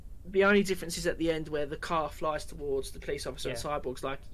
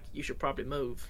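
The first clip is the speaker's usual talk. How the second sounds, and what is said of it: Poor put-on American accent. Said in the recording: “That American accent is awful, I apologise.”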